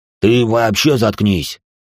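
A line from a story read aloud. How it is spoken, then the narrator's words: Upset angry bark. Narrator (Russian): тут же рявкнул на него Холин, явно все еще переживающий из-за своего позорного падения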